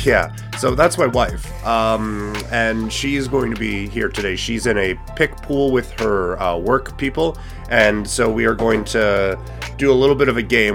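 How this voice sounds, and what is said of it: Impaired, unusual-sounding voice. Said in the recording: “as you can hear. At least I hope you can hear. I hope I don't sound like this all the time. My voice has kind of betrayed me the last couple of days”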